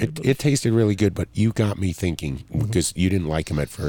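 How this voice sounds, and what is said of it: Usual voice. Nothing is said of it.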